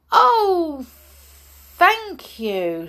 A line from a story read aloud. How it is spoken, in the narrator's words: she exclaimed